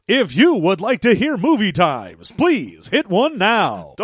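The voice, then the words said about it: Movie phone announcer voice. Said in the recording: “crazy announcer voice with your movie times ... damn movie phone voice”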